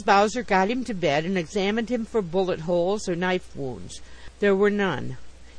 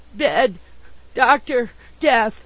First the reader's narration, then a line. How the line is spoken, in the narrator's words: he gasped in reply